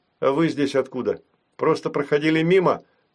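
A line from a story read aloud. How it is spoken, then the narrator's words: Stern question. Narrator (Russian): строго спросил у них я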